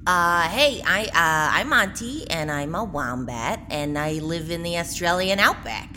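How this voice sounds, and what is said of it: Brooklyn-style New York accent. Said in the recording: “is the accent translator not working? They're from Australia, but it sounds sort of localized to Brooklyn”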